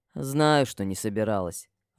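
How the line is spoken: Sighing. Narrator (Russian): вздохнул Грэм

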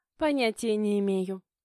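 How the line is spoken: Snorted. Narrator (Russian): фыркнула Ксюша

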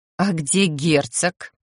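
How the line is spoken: Grumbled to oneself. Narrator (Russian): словно для себя буркнула я

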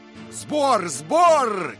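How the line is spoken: Shouting. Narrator (Russian): кричал Дик

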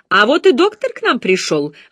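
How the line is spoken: Joyful announcement. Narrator (Russian): радостно сообщила мисс Найт

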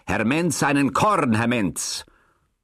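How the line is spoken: Sudden call. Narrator (German): Herr Jakob … rief plötzlich

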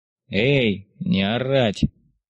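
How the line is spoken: Lazy reply. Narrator (Russian): Лениво откликнулся один из серошинельных конвоиров

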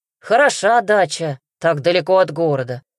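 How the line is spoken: Wry snort. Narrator (Russian): хмыкнул Лёва

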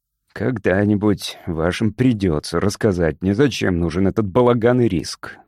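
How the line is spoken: Gloomy. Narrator (Russian): мрачно сообщил детектив

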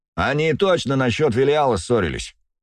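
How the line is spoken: Shouted from across room. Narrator (Russian): выкрикнул кто-то с другой стороны комнаты

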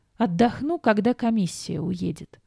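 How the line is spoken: Moaning. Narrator (Russian): простонала я

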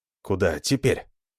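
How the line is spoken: Whispered question. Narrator (Russian): спросил он шепотом

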